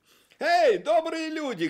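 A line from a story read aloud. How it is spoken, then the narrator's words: Shout. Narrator (Russian): крикнул он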